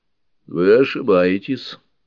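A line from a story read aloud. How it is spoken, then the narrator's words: Calm. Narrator (Russian): спокойно произнес преподобный доктор Фрэнк Скотт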